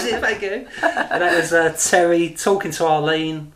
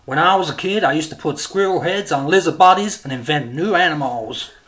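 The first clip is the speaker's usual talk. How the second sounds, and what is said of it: Imitates a show character's voice. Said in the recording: “That was a great Terry impression.”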